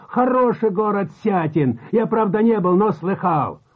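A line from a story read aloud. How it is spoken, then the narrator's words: Shouting again. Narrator (Russian): опять закричал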